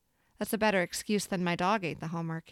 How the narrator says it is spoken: he says

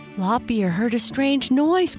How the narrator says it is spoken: cried Snuggle and Pink Nose together

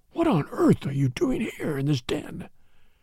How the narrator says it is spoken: whispered

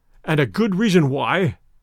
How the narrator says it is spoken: growled Gernois

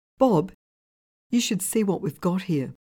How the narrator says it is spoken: In a shaking voice, called out

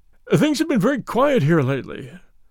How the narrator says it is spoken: said wistfully

